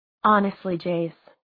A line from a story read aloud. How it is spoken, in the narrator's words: she said, as gently as she'd touched him